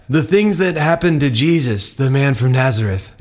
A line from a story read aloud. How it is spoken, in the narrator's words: they said